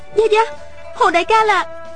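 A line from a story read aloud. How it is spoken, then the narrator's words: Exclaiming. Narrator (Vietnamese): Miêu Nhược Lan kêu lên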